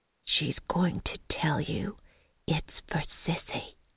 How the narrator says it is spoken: Mary whispered

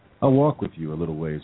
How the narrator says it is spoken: said

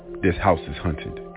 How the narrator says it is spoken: she finally blurted out

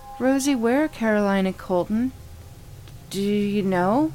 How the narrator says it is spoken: stammered

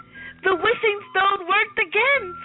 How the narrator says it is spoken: squeaked Flamingo

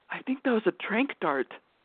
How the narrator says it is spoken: whispered

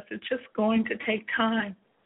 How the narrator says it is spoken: I pleaded

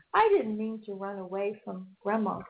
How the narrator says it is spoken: said Lizzie

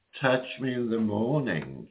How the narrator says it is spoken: she purrs

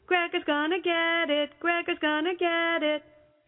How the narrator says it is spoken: just kept yelling

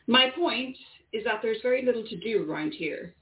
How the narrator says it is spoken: said Isabella

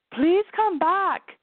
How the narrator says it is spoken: she called out

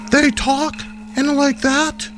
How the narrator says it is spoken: She gasped

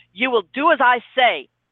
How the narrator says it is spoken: he snapped

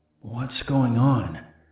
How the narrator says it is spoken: I said in a hoarse voice

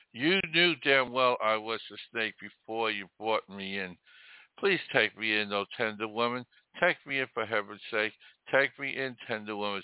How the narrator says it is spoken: sighed the snake

